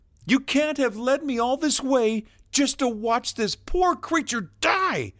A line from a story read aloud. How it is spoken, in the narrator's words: he called out to the Nexus